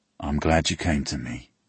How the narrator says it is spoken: he says quietly

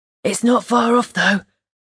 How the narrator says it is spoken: Big Daddy whispered loudly to Frost

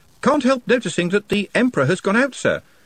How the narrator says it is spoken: said the voice from below cheerfully

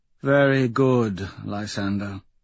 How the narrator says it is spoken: she says sadly

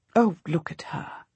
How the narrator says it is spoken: I say gently

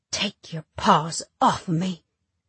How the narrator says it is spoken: I whisper

